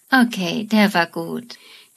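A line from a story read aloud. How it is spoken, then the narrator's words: Says laughing after pause. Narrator (German): Amy, die seit langem darauf hofft, mit Sheldon intimer zu werden, überlegt kurz und sagt dann lachend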